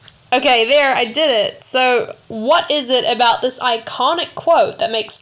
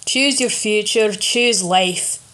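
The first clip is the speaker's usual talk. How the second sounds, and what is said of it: Put-on Scottish accent. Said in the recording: “I think it sounds better if I say it in a Scottish accent.”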